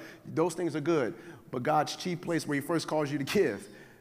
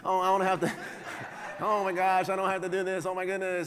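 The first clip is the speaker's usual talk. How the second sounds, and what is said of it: Imitates another person's voice. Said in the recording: “my voice went to Kevin Hart voice”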